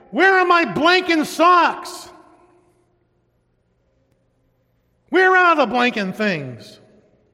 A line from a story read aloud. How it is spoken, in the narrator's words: Instinctively, yelled out